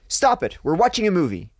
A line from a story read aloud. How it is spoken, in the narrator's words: said loudly